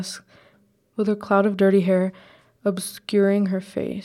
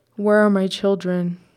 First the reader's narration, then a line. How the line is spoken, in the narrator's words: Nauseating in her madness, a disgusting sigh